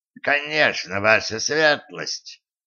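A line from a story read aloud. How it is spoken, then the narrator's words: Creaky voice. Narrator (Russian): проскрипел Карл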